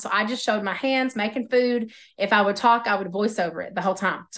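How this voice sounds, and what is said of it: Oklahoma accent. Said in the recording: “my voice, my Oklahoma accent”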